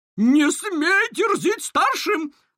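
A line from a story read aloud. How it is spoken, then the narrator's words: Shouted. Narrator (Russian): выкрикнула Кобра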